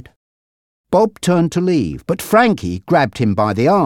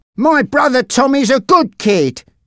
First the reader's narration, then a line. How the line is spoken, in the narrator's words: he said angrily